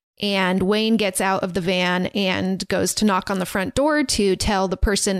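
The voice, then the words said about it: Slight Southern American accent. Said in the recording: “am I talking in like a slight Southern accent? I just heard myself ... Am I talking in a Southern accent? ... that sounded a little bit”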